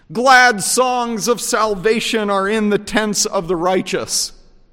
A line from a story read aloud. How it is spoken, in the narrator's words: the director on the wall shouts